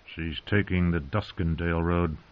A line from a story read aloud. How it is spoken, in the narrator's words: Sir Cleos muttered